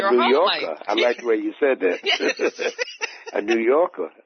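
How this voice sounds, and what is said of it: Usual voice. Nothing is said of it.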